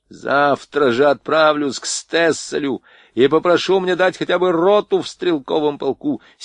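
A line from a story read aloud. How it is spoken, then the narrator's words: Angry shouting. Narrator (Russian): сердито кричал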